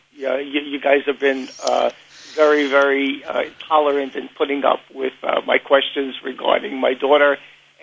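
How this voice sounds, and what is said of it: Strong Queens New York accent. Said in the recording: “You can't miss that Queens accent anywhere.”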